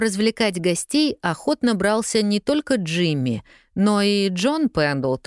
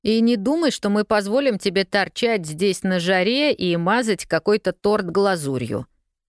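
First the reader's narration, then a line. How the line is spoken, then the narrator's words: Grumbled. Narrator (Russian): проворчал однажды Джейми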